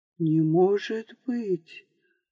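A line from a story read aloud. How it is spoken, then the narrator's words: Whisper. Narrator (Russian): прошептал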